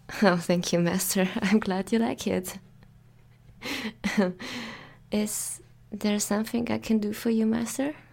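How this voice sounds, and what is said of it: German accent speaking English. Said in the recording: “This is my native language, yes. I speak German... I try to speak English with you. Sorry for my accent.”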